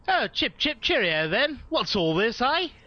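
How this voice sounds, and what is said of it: Put-on British accent. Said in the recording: “British accent ... your British accent is more authentic than several cast members”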